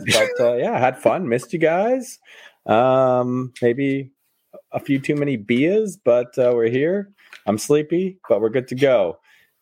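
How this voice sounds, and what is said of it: Hoarse voice. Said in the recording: “My voice is a bit hoarse today”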